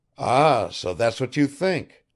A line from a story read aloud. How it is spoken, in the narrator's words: Pavel Petrovich began, then suddenly exclaimed